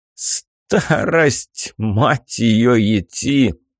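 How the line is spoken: Explaining after laughing. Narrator (Russian): отсмеявшись, поясняет Кощей

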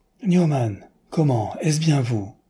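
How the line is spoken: Surprised exclamation, bursting laughing. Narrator (French): s'écria l'autre, qui, au son de sa voix, avait tout à coup reconnu son ami, et qui partit lui aussi d'un grand éclat de rire

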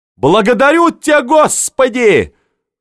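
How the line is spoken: Frantic yell. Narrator (Russian): заорал Иван истошно

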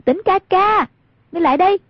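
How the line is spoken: Raised voice calling. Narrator (Vietnamese): Hoàng Dung cao giọng gọi

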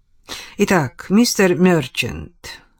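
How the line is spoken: Sigh. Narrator (Russian): вздохнул Чедвик

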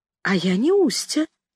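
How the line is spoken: Timid objection. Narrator (Russian): робко возразила я

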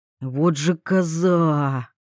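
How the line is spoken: Mumbled. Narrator (Russian): пробормотал Вольных

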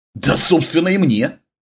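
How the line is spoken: Snorted, woman. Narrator (Russian): фыркнула брюнетка Ева

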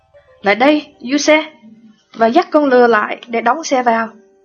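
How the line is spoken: Loud. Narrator (Vietnamese): nói lớn tiếng

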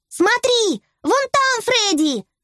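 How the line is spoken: Shout. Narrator (Russian): закричала Белла

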